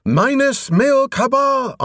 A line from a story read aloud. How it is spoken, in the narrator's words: on different pitches in half-screamed harmony